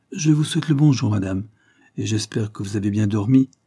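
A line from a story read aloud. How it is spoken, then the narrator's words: Abrupt exclamation. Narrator (French): s'écria brusquement Mademoiselle Carlyle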